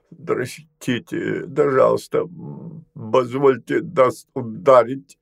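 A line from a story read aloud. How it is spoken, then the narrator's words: Trembling voice. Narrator (Russian): Витяра дрожащим голосом произносил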